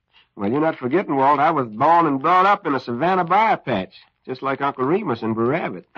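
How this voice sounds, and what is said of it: Southern American accent. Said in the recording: “that sounds like a genuine southern accent you using there”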